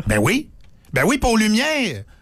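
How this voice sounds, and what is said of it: Saguenay Quebec French accent. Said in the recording (French): “J'ai repris mon accent du Saguenay.”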